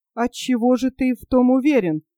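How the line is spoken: Plain. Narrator (Russian): сказал Орленко

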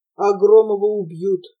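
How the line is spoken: Angry, convinced mutter. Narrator (Russian): убежденно, озлобленно буркнул парень

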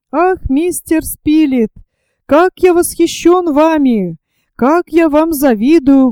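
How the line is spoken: Ecstatic exclamation. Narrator (Russian): воскликнул Герберт в порыве вполне понятного восторга

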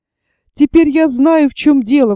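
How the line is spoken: Exclaimed. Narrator (Russian): воскликнул Том

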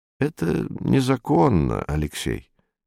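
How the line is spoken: Quiet. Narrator (Russian): негромко сказал Юрковский

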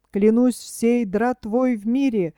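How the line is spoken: Exclamation. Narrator (Russian): воскликнул он

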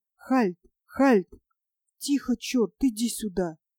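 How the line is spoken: Whispering through cupped hands. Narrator (Russian): приложил ладони рупором ко рту и зашептал

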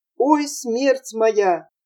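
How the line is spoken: Pleading workman. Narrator (Russian): слесарь Пров взмолил

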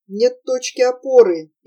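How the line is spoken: Sad muttering. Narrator (Russian): печально бормотал Прохор

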